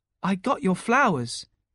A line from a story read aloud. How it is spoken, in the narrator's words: she said warmly